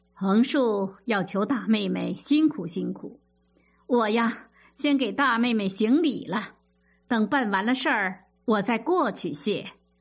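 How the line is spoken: Ingratiating, smiling. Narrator (Chinese): 贾珍陪笑着说

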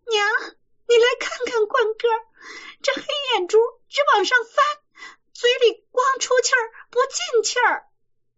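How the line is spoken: Frightened nurse calling out. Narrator (Chinese): 奶妈吓得叫李瓶儿

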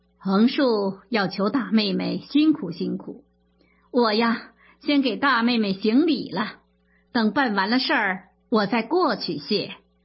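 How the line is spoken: Ingratiating, smiling. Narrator (Chinese): 贾珍陪笑着说

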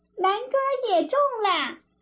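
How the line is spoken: Shouting from outside. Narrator (Chinese): 外面又嚷

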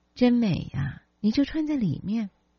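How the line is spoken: Admiring. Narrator (Chinese): 不禁赞叹说

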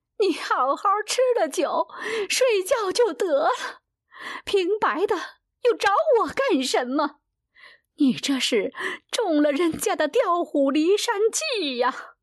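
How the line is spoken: Wailing. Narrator (Chinese): 惠莲放声大哭

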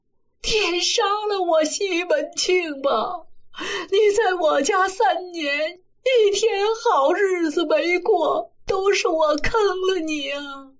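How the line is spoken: Sobbing. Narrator (Chinese): 西门庆趴在他身上抱着脸哭

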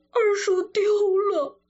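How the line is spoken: Crying. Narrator (Chinese): 贾兰 哭着说

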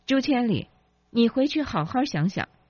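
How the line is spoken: Angry crowd. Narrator (Chinese): 愤怒的群众说

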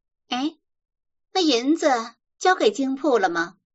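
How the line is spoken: Calling out. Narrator (Chinese): 金莲、玉楼又叫住他

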